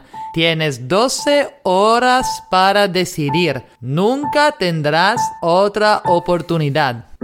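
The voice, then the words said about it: Dracula-style vampire accent. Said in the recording (Spanish): “Esta es mi idea del acento de Drácula”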